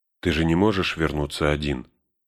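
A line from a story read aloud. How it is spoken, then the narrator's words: Calm reminder. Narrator (Russian): спокойно напомнила Сэму Галадриэль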